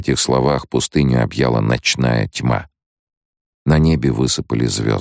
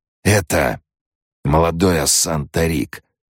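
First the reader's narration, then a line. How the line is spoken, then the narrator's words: Hoarse whisper, preacher. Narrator (Russian): хрипло прошептал проповедник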